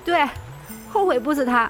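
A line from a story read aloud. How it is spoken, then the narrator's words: Sobbing, suppressing laughter. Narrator (Chinese): 宋清浅差点轻笑出声，抽抽搭搭的回话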